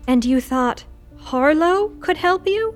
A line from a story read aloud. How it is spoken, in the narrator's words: Lou groaned